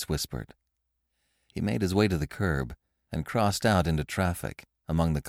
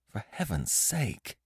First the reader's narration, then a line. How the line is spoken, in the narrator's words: Lois muttered, sickened